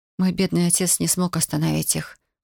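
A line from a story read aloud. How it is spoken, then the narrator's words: Sigh. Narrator (Russian): вздохнула Марина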